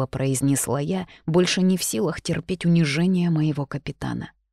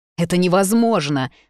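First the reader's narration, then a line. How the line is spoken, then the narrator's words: Alarmed shout. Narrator (Russian): закричала Виверна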